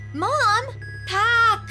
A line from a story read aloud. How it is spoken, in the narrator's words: Alila yelled